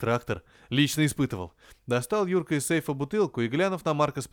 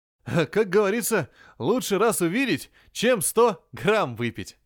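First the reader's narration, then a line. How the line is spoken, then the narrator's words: Laughing. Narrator (Russian): засмеялся Юрка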